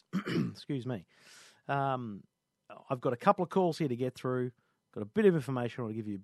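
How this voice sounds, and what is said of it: Sick, congested flu voice. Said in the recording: “I'm struggling with this flu, and you can hear it in my voice.”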